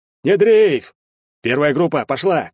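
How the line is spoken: Shouted. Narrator (Russian): крикнул Карасик

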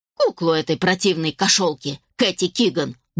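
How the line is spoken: Grumbling mutter. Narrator (Russian): буркнула Мардж

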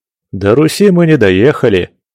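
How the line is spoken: Giggling. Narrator (Russian): хихикнул Андрюха

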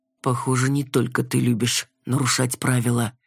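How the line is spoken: Low-voiced remark. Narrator (Russian): заметил Ренейр вполголоса

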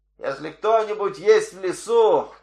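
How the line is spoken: Shout. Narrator (Russian): крикнул Коренастый

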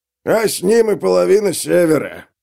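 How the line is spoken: Wheezing. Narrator (Russian): просипел Черствый

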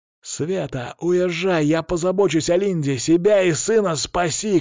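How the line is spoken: Shouting. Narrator (Russian): крикнул я

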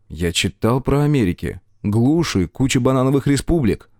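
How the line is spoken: Hurt grumble. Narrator (Russian): буркнул я уязвленно

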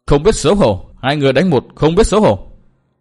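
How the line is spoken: Sulky girl shouting. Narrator (Vietnamese): Thiếu nữ nọ mặt tỏ vẻ hờn giận, mồm thì quát bằng

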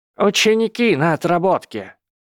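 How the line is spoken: Loud reply. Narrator (Russian): громко ответил Филч

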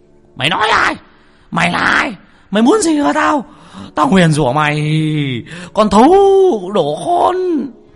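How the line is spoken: Frantic howling old man. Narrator (Vietnamese): Lão dãy đành đạch như là con chó ở trên nương, nó rú lên khi con hổ về rừng

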